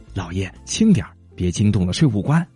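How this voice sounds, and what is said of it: Quiet, hushed voice. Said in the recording (Chinese): “他妻子小声说”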